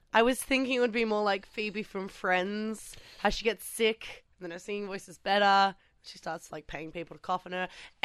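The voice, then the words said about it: Slightly raspy, hoarse voice. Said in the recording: “my voice is a little bit sus today, which I'm sure you can hear... A little raspy... A little raspy.”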